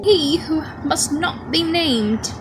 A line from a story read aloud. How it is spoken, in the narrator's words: snarled Fudge